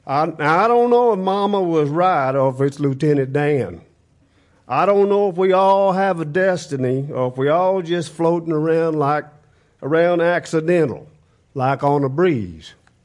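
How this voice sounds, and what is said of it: Weak Forrest Gump impression. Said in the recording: “Read that in your Forrest Gump voice ... I get about a two.”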